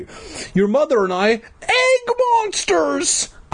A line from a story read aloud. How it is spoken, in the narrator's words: I cried